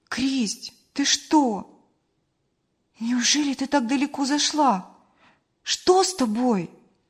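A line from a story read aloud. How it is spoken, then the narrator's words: Exclaimed. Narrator (Russian): воскликнула Мария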